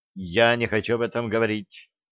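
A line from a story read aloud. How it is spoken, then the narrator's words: Said sharply. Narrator (Russian): резко сказала Стесси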